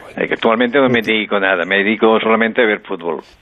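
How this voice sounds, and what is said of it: Slight Catalan accent in Spanish. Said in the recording (Spanish): “tienes un poco de acento catalán”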